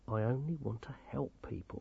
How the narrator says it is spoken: he said quietly

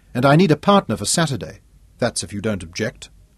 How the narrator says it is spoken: said firmly

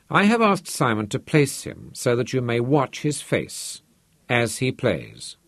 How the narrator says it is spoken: said the host

